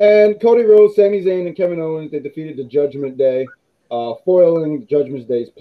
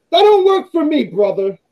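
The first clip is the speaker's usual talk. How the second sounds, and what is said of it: Yelling, raised loud voice. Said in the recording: “I don't know why I'm yelling.”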